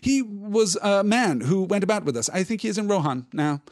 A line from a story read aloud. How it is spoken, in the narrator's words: stammered Pippin